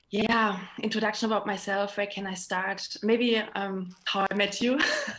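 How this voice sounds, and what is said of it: German accent. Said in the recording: “I'm from Germany, as my accent can tell.”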